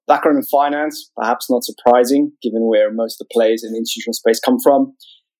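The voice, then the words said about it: South African accent. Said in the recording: “You can probably tell from my funny accent, I grew up in South Africa.”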